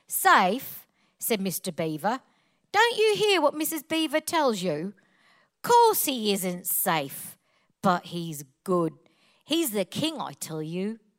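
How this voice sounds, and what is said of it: Put-on Cockney accent. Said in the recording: “please read it with a Cockney accent, so I'm going to do my very, very best”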